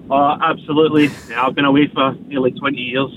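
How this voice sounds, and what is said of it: Strong Scottish Cumbernauld accent. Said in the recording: “he's held on to that accent ... the Cumbernauld ... He's held on his accent magnificently”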